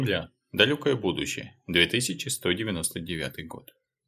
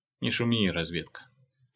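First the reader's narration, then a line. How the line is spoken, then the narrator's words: Heavy sigh. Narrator (Russian): тяжело вздохнул тот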